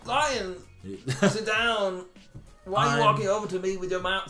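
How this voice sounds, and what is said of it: Imitates another person's voice. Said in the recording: “I wish I could do a Christopher Walken impression”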